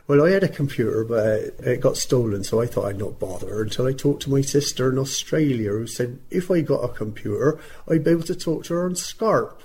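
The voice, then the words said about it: Put-on Bristol accent. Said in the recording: “very Bristol she was, and do pardon my Bristol accent.”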